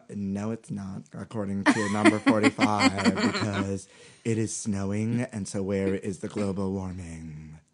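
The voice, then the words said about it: Imitates another person's voice. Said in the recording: “worst Trump impression”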